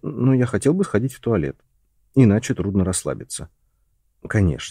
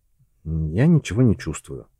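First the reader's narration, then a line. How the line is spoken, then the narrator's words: Gloomy. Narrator (Russian): мрачно проговорил Джон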